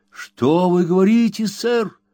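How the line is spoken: Startled exclamation. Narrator (Russian): воскликнул Рэмси

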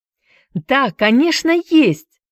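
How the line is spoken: Glad answer. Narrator (Russian): отвечала Хайди, радостно

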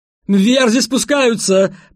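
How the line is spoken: Shouted. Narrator (Russian): прокричал епископ Батта и Уэллса

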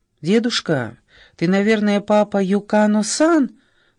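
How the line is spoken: Cheerful question. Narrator (Russian): бодро спросила Тока

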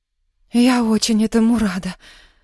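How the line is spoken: Breathed out. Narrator (Russian): выдохнула Яна

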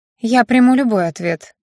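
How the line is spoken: Sighing young woman. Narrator (Russian): вздохнула девушка

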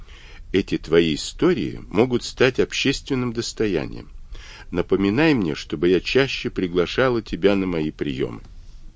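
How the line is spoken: Whisper. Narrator (Russian): Мэри ... шепнула

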